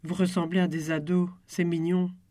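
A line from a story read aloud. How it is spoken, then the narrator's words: Plain. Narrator (French): a dit Justine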